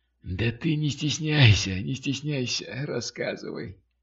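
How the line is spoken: Hoarse, encouraging. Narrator (Russian): подбодрил хриплый

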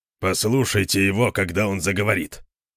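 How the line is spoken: Grumbling. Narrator (Russian): проворчал Конан

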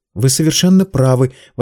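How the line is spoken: Exclamation. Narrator (Russian): воскликнул Пит

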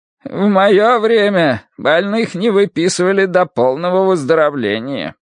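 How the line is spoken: Creaky voice. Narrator (Russian): он проскрипел

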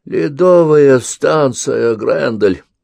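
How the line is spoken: Groaning. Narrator (Russian): простонал Ковальский

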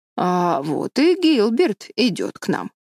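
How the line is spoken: Plain. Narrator (Russian): сказала Марилла

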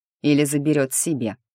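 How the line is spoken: Amused snort. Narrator (Russian): хмыкнул Ник

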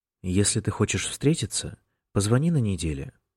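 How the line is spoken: Calm. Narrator (Russian): спокойно сказал тот

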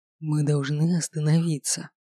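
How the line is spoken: Hoarse rasp. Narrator (Russian): Зарылся лицом в мои волосы, прохрипел

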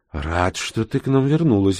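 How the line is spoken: Joyful exclamation. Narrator (Russian): обрадованно воскликнул профессор

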